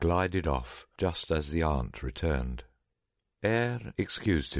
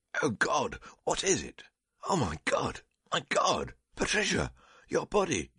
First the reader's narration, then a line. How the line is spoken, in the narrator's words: Awaking as from death, he suddenly cried out